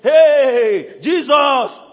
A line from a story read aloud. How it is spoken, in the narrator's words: shouting, maybe just say